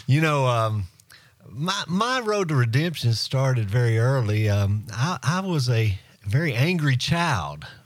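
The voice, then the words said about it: Southern US accent. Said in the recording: “most people can tell by my dialect that I was a Southerner. Born and bred.”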